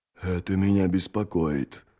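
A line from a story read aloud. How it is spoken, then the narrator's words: Whisper. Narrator (Russian): прошептал Джот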